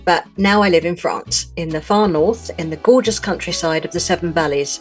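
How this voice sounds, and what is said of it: London British accent. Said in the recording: “I'm a Brit, but I'm from London, as you can maybe tell from my accent.”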